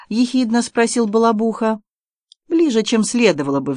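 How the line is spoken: Sighing. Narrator (Russian): вздохнул Август

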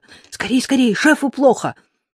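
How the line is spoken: Shout. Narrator (Russian): крикнула

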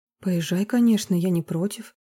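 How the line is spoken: Gentle, affectionate. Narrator (Russian): ласково ответила она

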